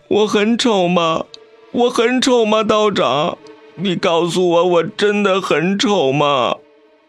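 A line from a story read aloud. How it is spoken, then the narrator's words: Sobbing, breathless. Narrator (Chinese): 他哭得一把鼻涕一把泪，上气不接下气 道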